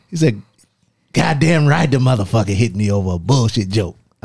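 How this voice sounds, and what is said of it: Imitates another person's voice. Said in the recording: “That's my best Chris Rock impression. I gotta work. It needs work. ... You gotta put more teeth in it.”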